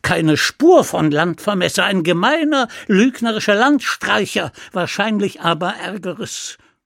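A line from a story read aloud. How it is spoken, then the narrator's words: Shouting. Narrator (German): schrie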